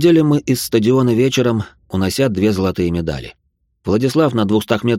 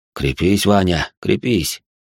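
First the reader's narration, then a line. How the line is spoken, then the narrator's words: Quiet. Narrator (Russian): тихо сказал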